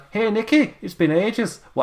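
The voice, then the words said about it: Put-on Scottish accent. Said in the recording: “What accent's that? Scotland.”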